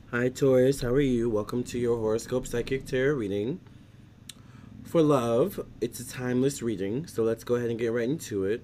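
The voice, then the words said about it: Voice sounds off, congested. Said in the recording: “Sorry if my voice sounds weird. Allergy season is kicking my booty”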